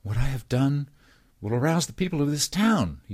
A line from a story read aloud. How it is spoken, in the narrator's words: he declared excitedly